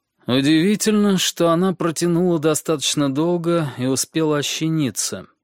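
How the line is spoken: Gloomy voice breaking silence. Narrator (Russian): сказал он мрачным голосом, разрывая молчание

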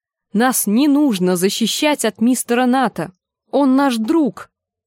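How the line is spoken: Exclaiming. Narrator (Russian): воскликнула Гленда

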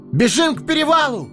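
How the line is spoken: Ringing shout. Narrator (Russian): звонко закричал Фродо

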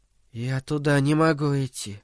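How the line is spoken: Whisper. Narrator (Russian): прошептал Дэнни

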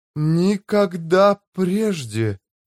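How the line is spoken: Breathless. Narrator (Russian): выдохнула она

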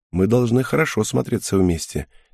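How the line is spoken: Quiet, smiling. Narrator (Russian): тихо сказала Киута, улыбаясь мне

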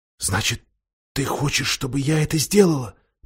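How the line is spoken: Whisper. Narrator (Russian): прошептала Люси

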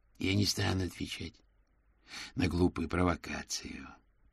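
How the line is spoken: Through gritted teeth. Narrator (Russian): процедил Пламен

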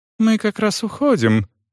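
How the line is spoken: Gentle, affectionate. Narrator (Russian): ласково сказала блондинка

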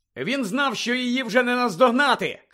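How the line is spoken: Shouted reply. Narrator (Ukrainian): крикнув у відповідь Гаррі

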